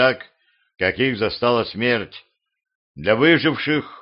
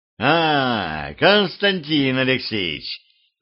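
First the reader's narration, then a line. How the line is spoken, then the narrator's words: Tsar's joyful laughter. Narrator (Russian): радостно захохотал царь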